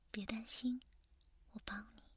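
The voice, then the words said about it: Soft, quiet voice. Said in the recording (Chinese): “他小声的说”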